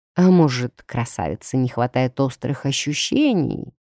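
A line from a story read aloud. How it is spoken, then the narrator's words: Distant voice, slightly growling. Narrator (Russian): донесся третий голос с легкими рычащими нотками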